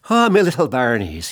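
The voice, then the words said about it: Put-on Irish-sounding accent. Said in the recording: “That was more Irish than Scottish ... I'd have to kind of like adjust my accents. I'm in an Irish thing right now.”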